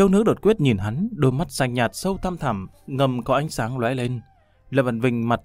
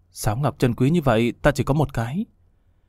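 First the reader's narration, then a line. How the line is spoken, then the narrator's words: Soft sighing mutter. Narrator (Vietnamese): khẽ thở dài lẩm bẩm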